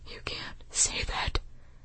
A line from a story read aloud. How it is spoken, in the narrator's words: Holston whispered